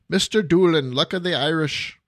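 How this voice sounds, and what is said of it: Bad put-on Irish accent. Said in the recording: “my horrible accent or impersonation of an Irish person”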